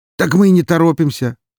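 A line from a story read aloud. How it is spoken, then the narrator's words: Man's muffled snort. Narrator (Russian): хмыкнул себе в маску мужик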